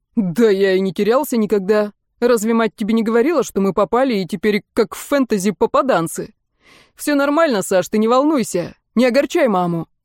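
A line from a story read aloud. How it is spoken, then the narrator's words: Deep bass voice. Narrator (Russian): Колька пробасил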